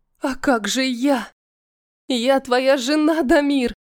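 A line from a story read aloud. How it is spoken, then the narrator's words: Hoarse with despair. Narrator (Russian): Мой голос хрипнет от отчаяния, накатившего на меня разом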